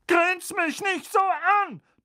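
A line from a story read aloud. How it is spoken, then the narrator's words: Thundering. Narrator (German): donnerte Tante Magda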